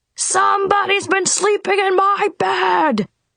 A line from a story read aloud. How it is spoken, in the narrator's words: roared Papa Bear